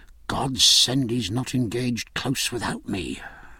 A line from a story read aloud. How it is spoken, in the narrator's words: murmured Jack